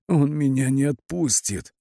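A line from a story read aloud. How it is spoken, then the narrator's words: Hoarse rasp. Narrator (Russian): прохрипел Кирилл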